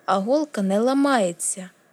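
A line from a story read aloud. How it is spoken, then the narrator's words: Defiant exclamation, voice wavering. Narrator (Ukrainian): зухвало вигукнула Арія, хоча в голосі її забриніло щось зрадливе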